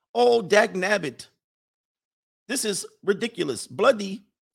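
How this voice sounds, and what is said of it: Put-on English accent. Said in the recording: “I love the English accent because they start cursing.”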